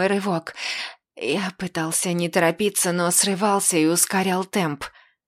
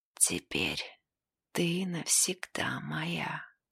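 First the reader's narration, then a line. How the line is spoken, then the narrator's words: Strained whisper. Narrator (Russian): Я с трудом прошептал в ее крошечное ушко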